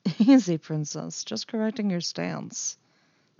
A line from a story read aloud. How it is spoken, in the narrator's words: he muttered